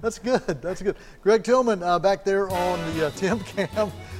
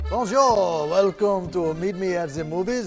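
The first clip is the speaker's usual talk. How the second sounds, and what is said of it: Put-on French/Belgian accent. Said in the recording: “just for the French... I'm glad you caught the accent because I was going for, Belgium.”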